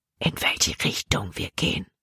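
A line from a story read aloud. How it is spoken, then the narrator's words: Whispering. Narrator (German): flüsterte Jordan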